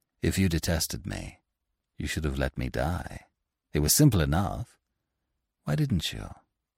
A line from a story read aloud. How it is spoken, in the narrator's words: He said to her, gently